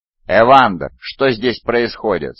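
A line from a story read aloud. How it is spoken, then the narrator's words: Plain. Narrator (Russian): спросил Хармейстер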